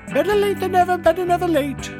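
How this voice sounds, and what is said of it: Poor put-on German accent. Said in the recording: “that was a poor German accent.”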